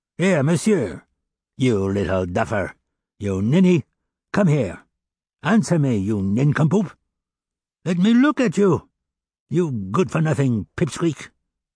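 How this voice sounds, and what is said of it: Harsh, scolding old man's voice. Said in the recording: “in a harsh voice”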